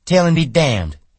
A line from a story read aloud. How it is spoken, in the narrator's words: she cried